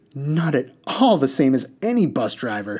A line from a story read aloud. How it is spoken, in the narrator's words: he shrieked